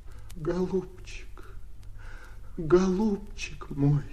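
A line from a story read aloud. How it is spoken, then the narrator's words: Sobbing. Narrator (Russian): зарыдал Оленька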